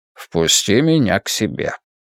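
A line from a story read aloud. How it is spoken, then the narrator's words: Calm casual request. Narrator (Russian): попросил Гик так спокойно, будто мы обсуждаем, какой сериал посмотреть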